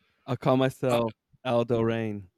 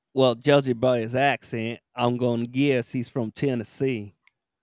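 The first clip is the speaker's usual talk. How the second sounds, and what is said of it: Poor put-on Southern accent. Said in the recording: “one of the worst accents I've ever heard ... people in Miami might think that was a Southern accent”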